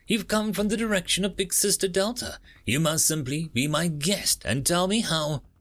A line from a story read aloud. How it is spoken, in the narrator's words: the girl said, her voice chirping like a bird